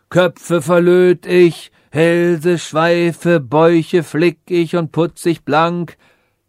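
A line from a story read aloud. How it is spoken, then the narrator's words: Distant call from street. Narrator (German): rief eine Stimme von der Straße her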